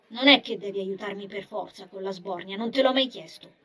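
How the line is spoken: Grumpy female retort. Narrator (Italian): ribatté lei in tono troppo scontroso

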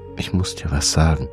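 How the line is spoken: Quiet. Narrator (German): sagte leise

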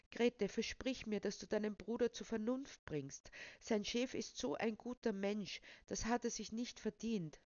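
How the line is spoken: Pleading voice. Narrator (German): sagte, und ihre Stimme klang flehentlich

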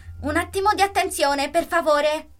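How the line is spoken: Shout. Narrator (Italian): gridò

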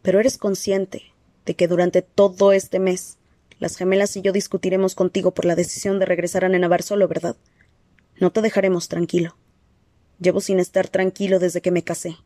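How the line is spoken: Plain. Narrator (Spanish): le respondió Alaric

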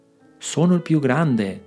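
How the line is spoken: Plain. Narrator (Italian): disse Orso Bruno

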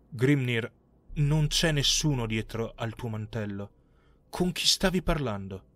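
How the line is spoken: Trembling voice. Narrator (Italian): Ketil allora disse con voce tremante

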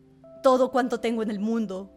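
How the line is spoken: King exclaiming. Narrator (Spanish): exclamó el rey

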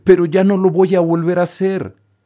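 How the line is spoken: Shouting while crying. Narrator (Spanish): gritó Pinocho llorando

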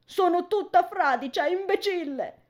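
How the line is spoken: Hysterical scream. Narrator (Italian): urla isterica

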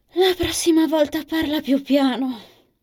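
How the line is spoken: Sighing. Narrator (Italian): dice Lisa, sospirando

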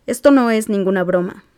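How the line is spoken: Plain. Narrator (Spanish): dijo Remy

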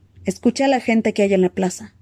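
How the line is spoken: Plain. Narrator (Spanish): dijo uno

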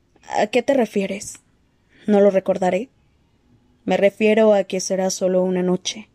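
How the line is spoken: Low voice. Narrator (Spanish): le dijo en voz baja

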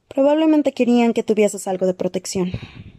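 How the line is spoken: Sighed. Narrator (Spanish): suspiró Talasin

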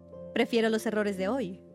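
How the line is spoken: Plain female reply. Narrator (Spanish): contestó ella

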